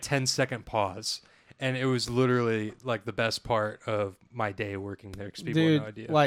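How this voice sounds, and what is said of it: Usual voice. Nothing is said of it.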